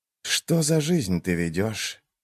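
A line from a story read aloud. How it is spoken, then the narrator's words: Quiet question. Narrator (Russian): тихо спросил он меня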